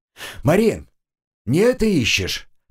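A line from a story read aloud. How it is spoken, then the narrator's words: Shouted. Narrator (Russian): крикнул я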